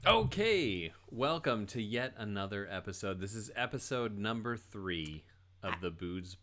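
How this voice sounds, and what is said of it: Usual voice. Nothing is said of it.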